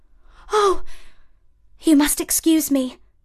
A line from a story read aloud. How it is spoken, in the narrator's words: exclaimed Cinderella